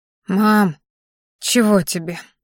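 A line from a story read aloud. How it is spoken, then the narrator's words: Tired question. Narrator (Russian): устало спросила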